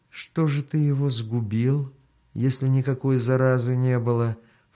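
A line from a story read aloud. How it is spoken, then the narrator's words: Ingratiating, deliberately soft question. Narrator (Russian): вкрадчиво, нарочито мягким голосом спросил хан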